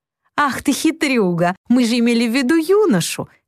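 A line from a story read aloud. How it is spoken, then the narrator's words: Laughing exclamation. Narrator (Russian): смеясь, воскликнула мисс Белль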